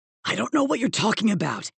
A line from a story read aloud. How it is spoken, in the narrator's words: rasped